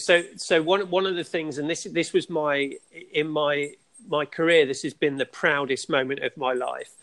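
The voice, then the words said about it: Speaks with a noticeable accent. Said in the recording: “that awesome accent of yours”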